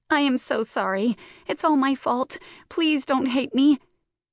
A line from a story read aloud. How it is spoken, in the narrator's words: caused her distress to increase, and in between her heaving gasps, she choked out